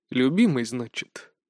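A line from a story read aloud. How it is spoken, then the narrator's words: Quiet frowning whisper. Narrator (Russian): Великий князь снова нахмурился тихо прошептал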